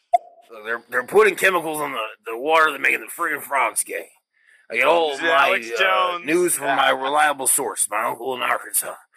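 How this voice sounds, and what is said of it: Raspy, harsh imitation of another person. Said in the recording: “good impersonation. His voice has gotten raspier over the years ... what's making the voice harsh”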